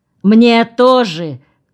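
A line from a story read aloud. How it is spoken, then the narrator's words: Shouted after someone. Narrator (Russian): крикнул Нукитин вслед выходившему из кабинета журналисту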